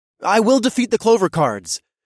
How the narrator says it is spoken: I announced in a loud voice

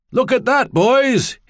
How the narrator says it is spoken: he shouted

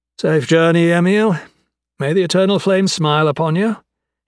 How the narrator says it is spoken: he called out to her, surprised that he could actually mean it

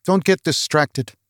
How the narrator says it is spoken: Olaf said

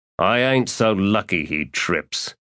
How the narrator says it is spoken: Ansi said in a growl

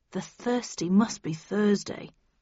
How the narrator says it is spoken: murmured Arnie

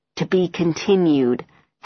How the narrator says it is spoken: Helen hisses at me

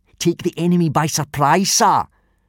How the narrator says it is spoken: shouted out Snot-Face Snotlout, a tall, unpleasantly smug-looking boy

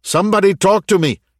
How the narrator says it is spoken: shouted Wagid over the radio

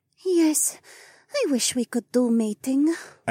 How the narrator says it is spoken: Adhara sighed

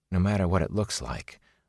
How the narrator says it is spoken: a small voice whispered in his mind

